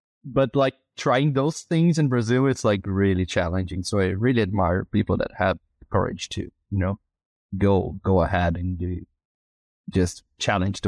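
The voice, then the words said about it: Brazilian accent. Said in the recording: “your Brazilian one”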